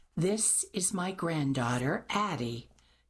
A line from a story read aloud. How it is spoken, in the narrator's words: Mimi replied, lips pressed tightly to her teeth